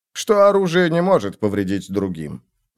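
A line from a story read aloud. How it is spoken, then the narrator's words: Conversational tone. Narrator (Russian): разговорным тоном сказал ему Альберт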